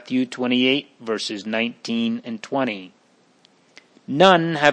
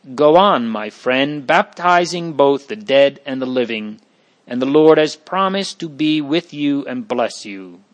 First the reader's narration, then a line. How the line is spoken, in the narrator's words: He exclaimed